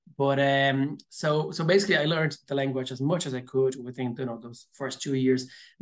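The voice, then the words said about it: Strong Brazilian-accented English. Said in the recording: “I still have a very strong accent, but people say like my accent is a bit more neutral than a Brazilian”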